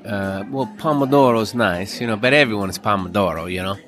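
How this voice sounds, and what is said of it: Put-on Italian accent. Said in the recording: “I'm probably should not be doing an Italian accent right now”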